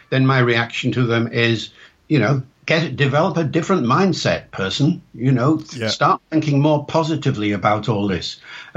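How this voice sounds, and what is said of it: Mixed Northern, Welsh and RP accent. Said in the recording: “the accent that people are listening to now is not RP ... my accent is a mix of my background. It's partly Northern, it's partly Welsh, it's partly educated RP”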